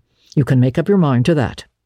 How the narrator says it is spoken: she said firmly

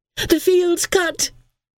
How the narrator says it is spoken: Helen cried excitedly

